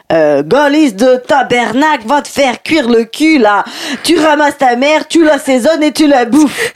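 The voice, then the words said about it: Badly done Québécois accent, sounds Belgian. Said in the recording (French): “accent québécois très mal fait ... c'est plus belge”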